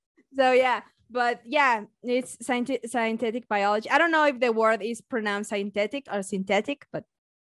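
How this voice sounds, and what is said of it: Mexican-accented English. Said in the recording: “my beautiful accent is Mexican one”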